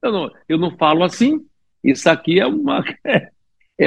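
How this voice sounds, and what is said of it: Usual voice. Nothing is said of it.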